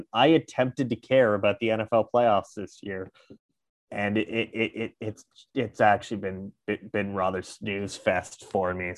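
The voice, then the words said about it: Congested, tired-sounding voice. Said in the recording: “still battling this stupid sinus infection, so if my voice sounds off ... I am dead tired”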